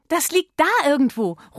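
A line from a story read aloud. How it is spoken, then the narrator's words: Calling out. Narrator (German): ruft Miller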